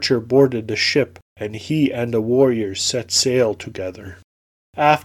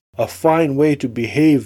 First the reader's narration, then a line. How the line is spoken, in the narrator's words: the warriors cried